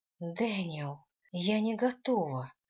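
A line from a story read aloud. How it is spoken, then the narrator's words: Moaning. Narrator (Russian): простонала я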